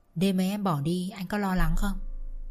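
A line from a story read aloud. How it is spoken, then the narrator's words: Softly murmured question. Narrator (Vietnamese): thủ thỉ hỏi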